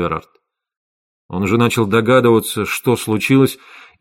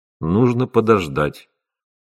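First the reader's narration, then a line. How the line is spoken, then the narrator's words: Dejected. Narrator (Russian): уныло сказал он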